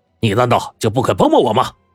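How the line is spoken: Anxious yelling. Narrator (Chinese): 他急得就大嚷起来

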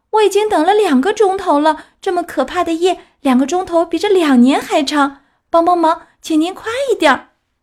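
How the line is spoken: Calling up from below. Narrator (Chinese): 皮诺乔打下面接上叫

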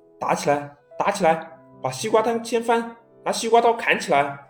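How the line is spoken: Clamoring crowd shouting. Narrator (Chinese): 一群乌合之众中不断有人叫嚷着

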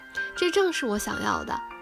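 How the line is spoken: Beaming happy child. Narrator (Chinese): 我的这位小评判员喜笑颜开，他说

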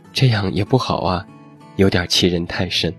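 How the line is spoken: Long sigh. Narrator (Chinese): 火锅大将军长叹

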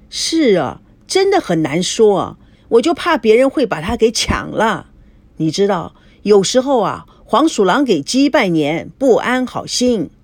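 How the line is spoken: Sudden loud laughter. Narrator (Chinese): 赵熙突然大笑说

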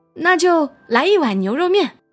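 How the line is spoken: Shouting. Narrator (Chinese): 大壮喊

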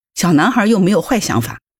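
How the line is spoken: Mother, extremely angry. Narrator (Chinese): 这个母亲愤怒无比地说

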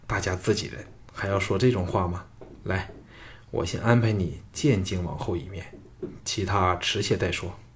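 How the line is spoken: Excited hearty laughter. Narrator (Chinese): 比他更为雀跃，哈哈大笑道

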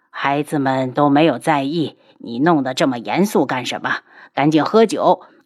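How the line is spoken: Old man laughing. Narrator (Chinese): 天树老人笑着对九天老人道

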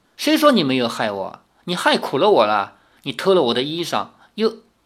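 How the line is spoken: Laughing. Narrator (Chinese): 赵灵儿笑着说

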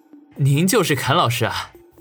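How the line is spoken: Inner thought. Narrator (Chinese): 心里头却暗道

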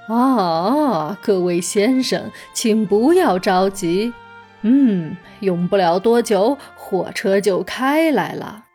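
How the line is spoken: Calm, smiling. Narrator (Chinese): 梨子站长不慌不忙地向大家笑着说

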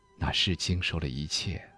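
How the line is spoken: Wistful sigh. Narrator (Chinese): 他感叹说

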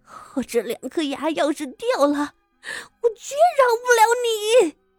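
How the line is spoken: Tearful complaint. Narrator (Chinese): 昭娇按着自己的门牙，又哭诉道

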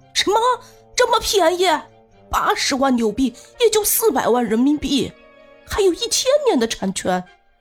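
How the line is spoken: Excited shout. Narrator (Chinese): 大妈兴奋不已，激动的快要跳了起来，喊道

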